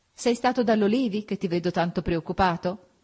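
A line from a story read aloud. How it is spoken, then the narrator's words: Laughing question. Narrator (Italian): Augusta, ridendo, mi domandò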